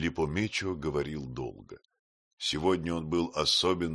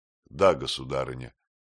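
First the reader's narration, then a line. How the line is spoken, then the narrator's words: Calm. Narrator (Russian): Филиппо Мечо спокойно отвечал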